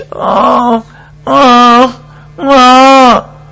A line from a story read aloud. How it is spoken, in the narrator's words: cried